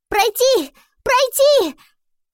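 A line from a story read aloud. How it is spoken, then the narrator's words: Agitated exclaiming. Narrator (Russian): взволнованно восклицал он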